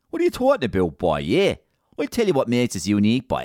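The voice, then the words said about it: Exaggerated Waterford Irish accent. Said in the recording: “what makes Waterford City and Waterford people so unique ... It's our accent, boy.”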